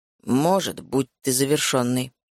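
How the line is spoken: Grumbled. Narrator (Russian): проворчал он

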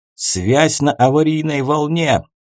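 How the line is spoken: Excited barking shout. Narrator (Russian): возбужденно рявкнул Эссан

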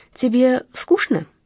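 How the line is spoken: Plain question. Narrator (Russian): спросила Ева Брит

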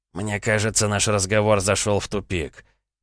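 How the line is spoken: Plain. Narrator (Russian): ответил Полянский

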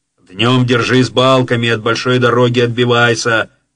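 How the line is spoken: Distant shout. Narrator (Russian): крикнул он уже из баркаса

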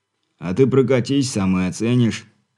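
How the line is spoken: Snort, then speaking. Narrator (Russian): хмыкнув, подал голос Бурый

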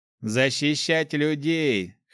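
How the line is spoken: Smirking snort. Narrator (Russian): хмыкнул Гош

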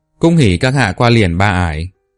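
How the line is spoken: Cheerful loud laughter. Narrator (Vietnamese): Độc Cước Vạn Trình cười lớn tiếng vui vẻ, nói

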